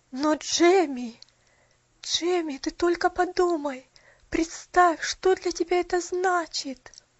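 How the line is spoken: Trembling voice. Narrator (Russian): Дрожащим голосом произнесла миссис Мёрфи

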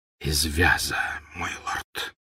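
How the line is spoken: Whisper. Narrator (Russian): прошептал Малфой

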